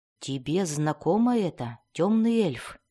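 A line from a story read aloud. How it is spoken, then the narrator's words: Quiet question. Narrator (Russian): тихо спросил Белвар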